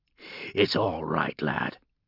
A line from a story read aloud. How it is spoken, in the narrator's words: he growled softly